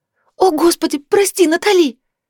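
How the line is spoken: Frightened babbling. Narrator (Russian): залепетала испуганно Китти

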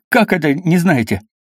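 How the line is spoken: Strained, forced out. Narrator (Russian): наконец выдавил из себя Халадин

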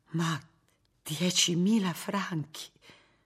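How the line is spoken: Slow whisper. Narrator (Italian): sussurrò lentamente Martina

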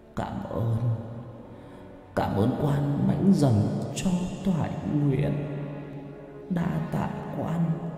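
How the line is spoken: Moaning. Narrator (Vietnamese): Miệng của ông vẫn còn rên rỉ

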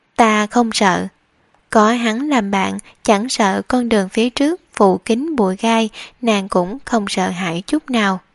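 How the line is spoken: Smiling, gentle yet firm. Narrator (Vietnamese): Lân Loan cười nhẹ nhàng lại kiên định vô cùng, nói

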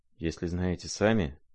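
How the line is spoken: Rather timid, prince. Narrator (Russian): сказал князь довольно робко

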